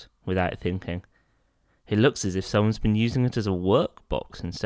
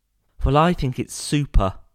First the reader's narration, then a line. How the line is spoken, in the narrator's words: exclaimed Jonathan excitedly